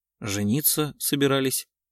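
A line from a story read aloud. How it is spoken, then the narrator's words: Calm reply. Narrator (Russian): спокойно ответила Евгения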